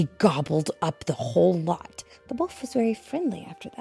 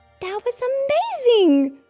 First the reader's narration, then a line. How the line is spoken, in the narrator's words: cried Luna